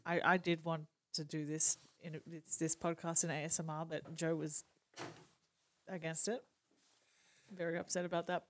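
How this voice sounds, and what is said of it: Australian accent. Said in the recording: “Obviously by the accent, I'm Australian.”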